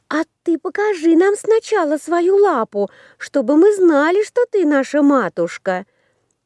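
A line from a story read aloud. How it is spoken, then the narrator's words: Young goats shouting. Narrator (Russian): Закричали козляточки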